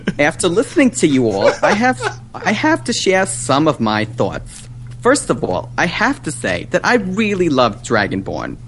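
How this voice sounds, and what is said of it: Brooklyn hairstylist character voice. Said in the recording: “one of my trademark voices ... this is Janine, the hairstylist from Brooklyn”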